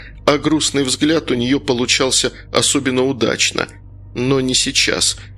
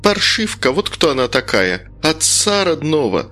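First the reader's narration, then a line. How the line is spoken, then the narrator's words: Angry hiss. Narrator (Russian): зло прошипели в ответ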